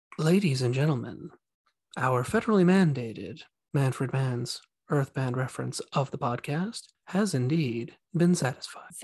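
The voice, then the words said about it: NPR radio announcer voice. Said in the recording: “this is my NPR voice”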